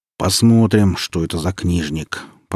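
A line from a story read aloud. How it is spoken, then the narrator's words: Fat man's grumble. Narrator (Russian): проворчал толстяк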